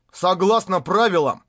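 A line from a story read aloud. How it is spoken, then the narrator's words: Elder's booming voice. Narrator (Russian): вновь прогремел голос старейшины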